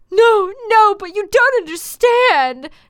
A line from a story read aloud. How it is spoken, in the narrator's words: Draco pleaded